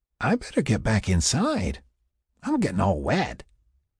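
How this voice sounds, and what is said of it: Drunken lilting voice. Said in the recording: “with a drunken lilt”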